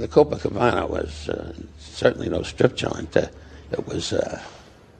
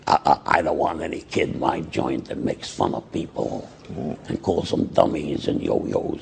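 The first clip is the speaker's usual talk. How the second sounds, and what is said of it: Imitates another person's voice. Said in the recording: “Forgive the impersonation”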